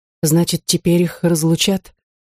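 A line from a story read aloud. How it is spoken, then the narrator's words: Weak faint voice. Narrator (Russian): проронила Дефне слабым голосом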